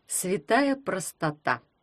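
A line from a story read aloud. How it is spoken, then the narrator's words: Creaky voice. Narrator (Russian): проскрипел перстень Феофила Гроттера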